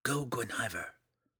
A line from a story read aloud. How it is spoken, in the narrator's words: the drow whispered